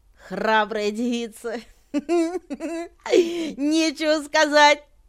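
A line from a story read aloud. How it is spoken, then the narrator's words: Loud laughter. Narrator (Russian): Засмеялась во все горло Анибал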